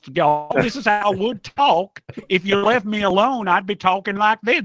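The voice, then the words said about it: Southern US Georgia accent. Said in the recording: “I am from Georgia. This isn't even my real accent... can we hear your real accent?... My real accent... This is all a put on.”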